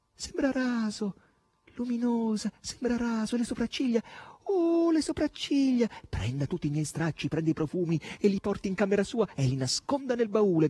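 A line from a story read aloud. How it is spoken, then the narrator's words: Woman shouting. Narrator (Italian): gridava Margherita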